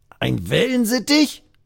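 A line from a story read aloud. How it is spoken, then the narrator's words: Croaked, nearly choking. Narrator (German): krächzt der andere und verschluckt sich dabei fast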